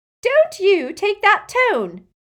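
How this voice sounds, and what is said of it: Shrill voice. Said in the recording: “in a shrill voice.”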